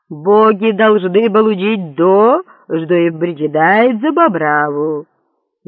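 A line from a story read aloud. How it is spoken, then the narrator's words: Thunderous voice. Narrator (Russian): громовым голосом сказал папа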